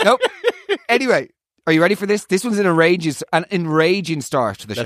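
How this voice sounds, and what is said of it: Usual voice. Nothing is said of it.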